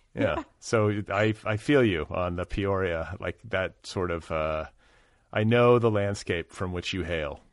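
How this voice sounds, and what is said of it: American Midwestern accent. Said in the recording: “I heard that accent. I said he's got to be from the Midwest.”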